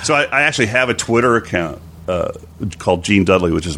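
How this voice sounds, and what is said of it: Usual voice. Nothing is said of it.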